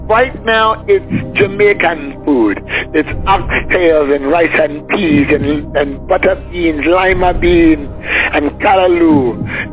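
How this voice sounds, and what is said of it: Speaks in a Jamaican accent. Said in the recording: “The accent and all, Pastor. The accent?”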